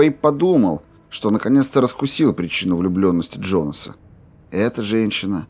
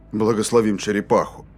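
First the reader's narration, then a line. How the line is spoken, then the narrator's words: Mumble. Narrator (Russian): Пробормотал Рейнольдс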